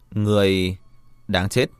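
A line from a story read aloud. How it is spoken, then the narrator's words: Confident, smiling. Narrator (Vietnamese): Lâm Triều Thiên tự tin mỉm cười nói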